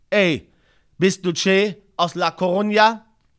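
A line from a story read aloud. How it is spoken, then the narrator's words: Called out. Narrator (German): rief mich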